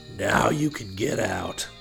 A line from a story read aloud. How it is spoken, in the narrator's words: Hawk said in a short, thick voice